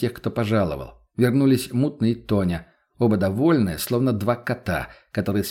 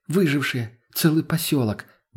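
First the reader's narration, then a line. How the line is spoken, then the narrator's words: Breathless exhale. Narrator (Russian): Выдохнула та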